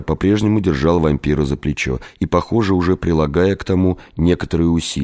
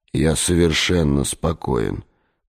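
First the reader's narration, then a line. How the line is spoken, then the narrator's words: Through clenched teeth. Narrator (Russian): процедил вампир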